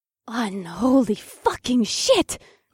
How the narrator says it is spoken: Akira gasped

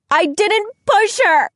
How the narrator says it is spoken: She screeches

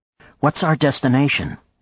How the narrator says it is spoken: Nadia asked

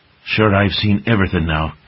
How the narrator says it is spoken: Burble muttered to one of the big hedgehogs

